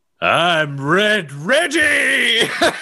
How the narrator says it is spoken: yell

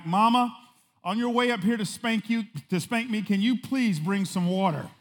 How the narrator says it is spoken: he yelled back

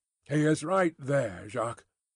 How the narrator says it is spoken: murmured Defarge, to him who had interrupted

